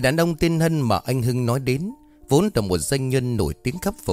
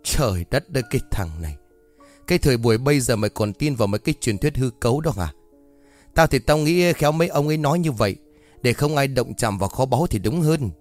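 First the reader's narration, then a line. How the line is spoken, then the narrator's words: Laughing loudly. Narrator (Vietnamese): anh Hưng liền cười lớn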